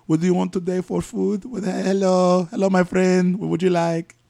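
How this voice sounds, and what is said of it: Put-on Hispanic accent. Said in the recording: “with a Hispanic”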